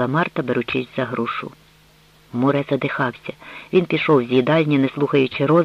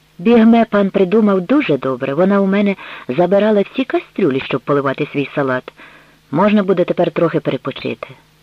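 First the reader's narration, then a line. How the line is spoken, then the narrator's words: Exclaimed. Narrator (Ukrainian): Роза вигукнула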